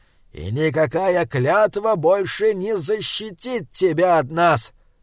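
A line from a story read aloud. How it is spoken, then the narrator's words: Furious giant's roar. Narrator (Russian): Каменный великан взревел в ярости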